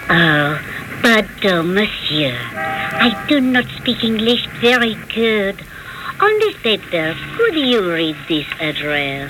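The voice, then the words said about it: Seductive French accent. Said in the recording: “In a most seductive French accent”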